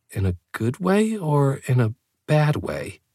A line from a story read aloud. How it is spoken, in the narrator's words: I sighed